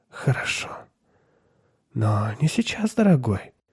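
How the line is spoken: Whisper. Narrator (Russian): шепотом сказала она

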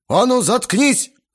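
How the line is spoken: Yelling. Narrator (Russian): заорал Грохотов

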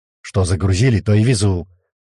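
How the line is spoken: Snapping retort. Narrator (Russian): Огрызнулся Локис

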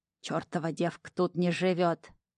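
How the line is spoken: Old woman's toothless mumble. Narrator (Russian): прошамкала старушенция и злобно сплюнула

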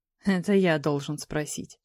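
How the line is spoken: Dragon's dry snort. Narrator (Russian): хмыкнул дракон

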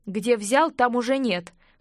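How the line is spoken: Smirking investigator. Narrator (Russian): хмыкнул следователь

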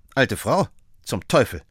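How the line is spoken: Curt. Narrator (German): sagte Sherlock Holmes schroff

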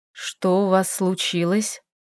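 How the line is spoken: Quiet nearby voice. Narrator (Russian): Рядом тихо раздался голос Рагандила

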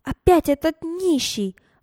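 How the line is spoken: Loud exclamation. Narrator (Russian): громко воскликнула Берта Петровна, увидев перед собой мужчину

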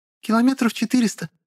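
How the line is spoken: Cheerful answer. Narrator (Russian): бодро ответила одна из них

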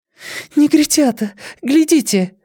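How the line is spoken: Sharp cry. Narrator (Russian): вскрикнула она

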